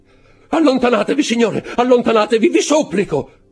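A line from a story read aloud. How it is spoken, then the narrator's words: Shouting. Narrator (Italian): gridò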